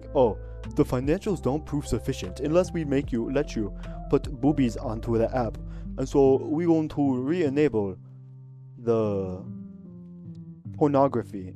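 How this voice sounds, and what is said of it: Put-on silly accent. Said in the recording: “That was not a Chinese accent. That was a stupid accent. ... That was not going for a Chinese accent.”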